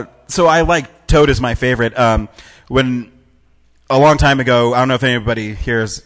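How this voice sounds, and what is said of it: Usual voice. Nothing is said of it.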